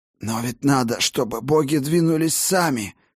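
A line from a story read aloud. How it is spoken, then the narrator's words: Hoarse wheeze. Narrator (Russian): просипел Тан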